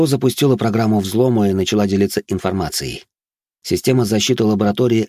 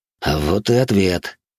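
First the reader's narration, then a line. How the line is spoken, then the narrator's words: Wry snort. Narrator (Russian): хмыкнул я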